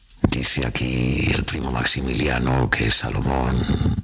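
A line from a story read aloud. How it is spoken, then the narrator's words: Murmuring. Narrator (Spanish): Don Juan III murmuró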